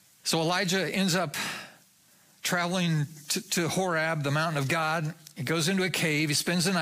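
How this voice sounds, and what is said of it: Usual voice. Nothing is said of it.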